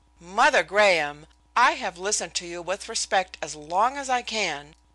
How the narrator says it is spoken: I exclaimed

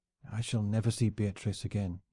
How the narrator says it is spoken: he whispered

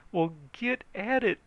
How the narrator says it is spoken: he begged

